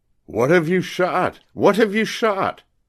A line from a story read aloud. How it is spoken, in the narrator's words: cried a shrill and somewhat weak voice in the distance